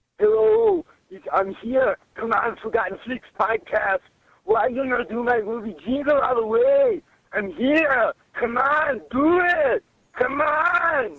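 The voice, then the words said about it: Imitates another person's accented voice. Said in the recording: “accent. Wait. Was that Hans France? ... Thank you, Arnie”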